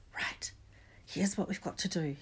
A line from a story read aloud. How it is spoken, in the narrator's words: he whispered urgently